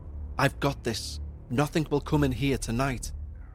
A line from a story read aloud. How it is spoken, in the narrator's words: I whispered